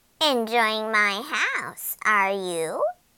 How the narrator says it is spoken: she croaked

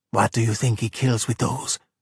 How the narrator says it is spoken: he whispered to Luca

